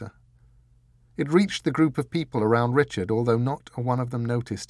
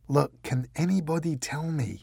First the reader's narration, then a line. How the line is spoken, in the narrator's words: muttered Richard